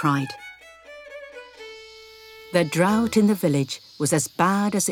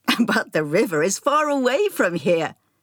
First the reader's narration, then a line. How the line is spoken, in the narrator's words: laughed the man